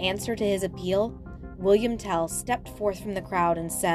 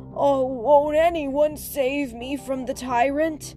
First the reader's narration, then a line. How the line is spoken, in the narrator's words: In despair, the helpless shepherd called out